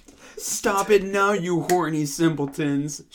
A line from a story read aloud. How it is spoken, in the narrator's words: shouted Professor McGonagall